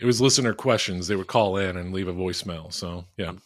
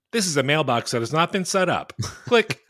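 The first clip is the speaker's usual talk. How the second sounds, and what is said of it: Automated voicemail message voice. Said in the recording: “Oh, that is actually what it's like when you call Jamel. ... Art imitating life.”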